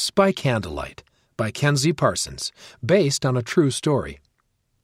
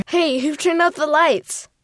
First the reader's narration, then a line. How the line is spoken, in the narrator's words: Her brother Joseph shouted from the kitchen